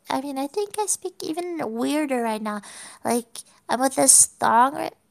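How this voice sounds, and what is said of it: Odd, impaired speech from sore tongue. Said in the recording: “I have this tongue hurting, so I speak in a weird way. Like, even weirder than the usual.”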